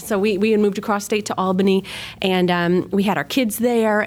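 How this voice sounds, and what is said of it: Flat upstate New York accent. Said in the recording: “We have a really flat accent like Chicago”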